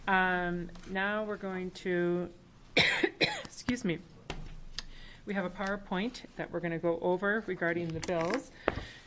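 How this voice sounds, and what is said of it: Hoarse, croaky voice. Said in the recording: “I have a frog in my throat”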